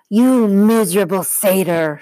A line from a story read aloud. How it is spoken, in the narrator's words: she snarled